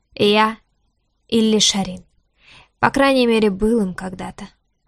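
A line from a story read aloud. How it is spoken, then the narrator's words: Quiet dragon voice. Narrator (Russian): добавил дракон негромко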